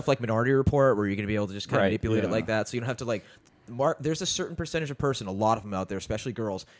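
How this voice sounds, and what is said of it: Usual voice. Nothing is said of it.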